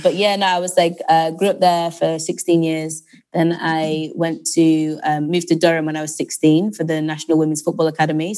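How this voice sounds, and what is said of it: Northwest English accent. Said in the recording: “I'm from the northwest of England, a small but very lovely city called Lancaster ... that's my accent, although I think my accent is maybe not typically Lancastrian”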